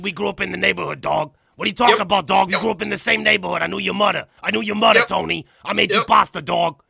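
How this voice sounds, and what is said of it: Imitates another person's voice. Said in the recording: “full out of Joey Diaz impersonations”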